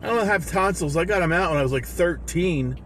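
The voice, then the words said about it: Strained sore-throat voice, slightly exaggerated. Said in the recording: “I got a sore throat... My throat's closing up on my alcoholic speak... it kind of is fake because I'm embellishing a little bit. But it hurts”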